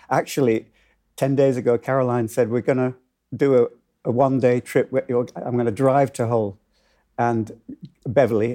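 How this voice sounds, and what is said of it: Northern English accent. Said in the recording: “I've got back into the Northern accent”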